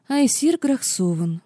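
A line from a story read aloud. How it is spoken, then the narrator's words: Drawling young princess. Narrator (Russian): протянула младшая принцесса Айтлона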